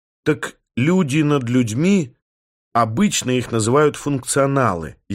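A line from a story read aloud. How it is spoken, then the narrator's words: Sighing. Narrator (Russian): я вздохнул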